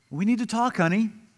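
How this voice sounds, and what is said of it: Sweet, gentle voice. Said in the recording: “talk in a sweet voice,”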